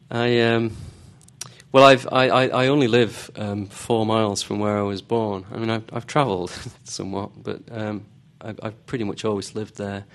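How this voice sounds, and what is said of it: Pronounced Northern English accent. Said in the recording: “You have a pronounced Northern English accent.”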